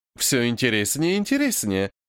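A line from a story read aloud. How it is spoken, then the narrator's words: Cheerful voice. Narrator (Russian): веселым голосом произносит баронесса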